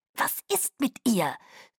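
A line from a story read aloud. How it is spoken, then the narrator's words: Hissed from behind. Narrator (German): zischte Caius von hinten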